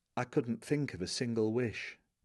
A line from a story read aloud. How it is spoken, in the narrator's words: Covering his mouth with the back of his hand, as if he wants to pass on something confidential, he whispers